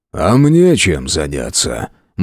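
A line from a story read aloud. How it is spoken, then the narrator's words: Gloomy clarification. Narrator (Russian): мрачно уточнил Громов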